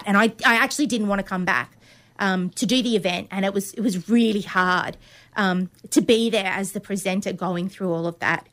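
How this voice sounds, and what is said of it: Emotional, wavering voice. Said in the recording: “I'm getting a little emotional.”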